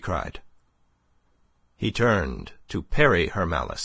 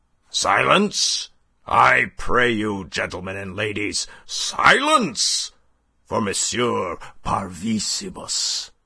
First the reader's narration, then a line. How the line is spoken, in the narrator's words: roared Monsieur Binet, and added